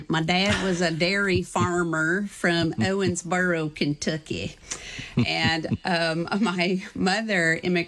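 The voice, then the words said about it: Put-on regional accent. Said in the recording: “I have to do this with the right accent.”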